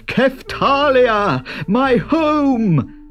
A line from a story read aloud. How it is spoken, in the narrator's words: cried the rider